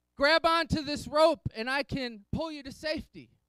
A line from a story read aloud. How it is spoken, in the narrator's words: The guy in the helicopter, the pilot, yells down